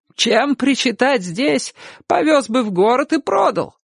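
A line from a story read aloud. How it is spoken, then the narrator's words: Shouting. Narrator (Russian): В ответ ему крикнула тетушка Софичка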